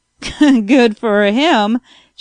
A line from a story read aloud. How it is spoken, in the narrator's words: chuckled the doctor